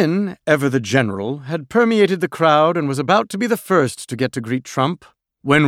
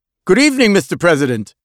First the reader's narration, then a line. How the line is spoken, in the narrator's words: cried, catching his breath, sweating profusely